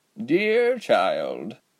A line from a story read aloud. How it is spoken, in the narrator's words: Giselle sighed